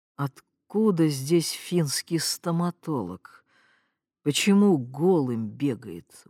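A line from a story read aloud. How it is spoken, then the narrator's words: Sleepy grumble. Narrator (Russian): буркнул доктор Бугров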